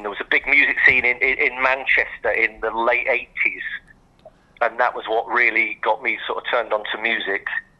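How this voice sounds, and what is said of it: Speaks with a noticeable accent. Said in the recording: “You still got the accent ... an average guitar player with an accent”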